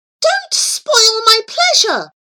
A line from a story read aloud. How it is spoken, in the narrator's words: exclaimed Desire